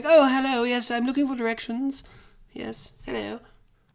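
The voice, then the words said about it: Posh British accent imitation. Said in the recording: “she puts on a British accent, though. ... It's very good. Very good, like, just posh.”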